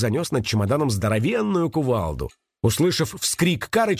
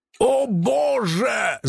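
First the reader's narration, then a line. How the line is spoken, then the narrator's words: Shouting. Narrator (Russian): закричал он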